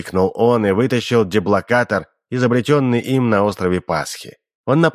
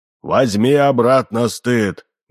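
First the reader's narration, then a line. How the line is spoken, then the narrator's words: Thunderous shout. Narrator (Russian): громовым голосом вскричал профессор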